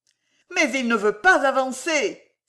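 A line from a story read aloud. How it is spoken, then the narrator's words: Exclaimed. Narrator (French): s'écria M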